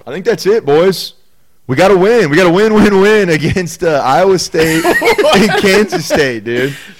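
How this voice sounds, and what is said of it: Impression of Rudy pep talk. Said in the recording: “That was my best Rudy impression.”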